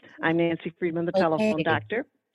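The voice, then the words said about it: Slow, sexy radio voice. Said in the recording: “I'm going to talk slow. So I want people to understand me. I'll use my sexy radio voice.”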